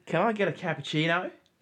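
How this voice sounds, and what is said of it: Poor attempted Australian accent. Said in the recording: “thinking he can do impersonations and accents ... That's a legitimate accent ... blimey, when did they move to Oz or something? ... That was terrible.”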